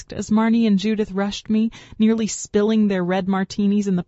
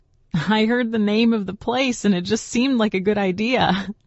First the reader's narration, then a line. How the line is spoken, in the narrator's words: Jessa said, laughing